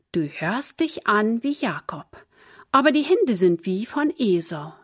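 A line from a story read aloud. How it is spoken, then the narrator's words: Plain. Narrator (German): sagte Isaak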